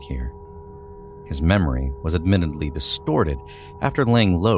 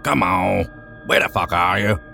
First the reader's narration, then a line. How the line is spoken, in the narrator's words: Sean growled